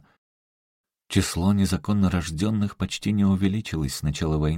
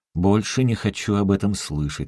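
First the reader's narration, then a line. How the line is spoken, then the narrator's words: Plain. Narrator (Russian): сказал Тедженс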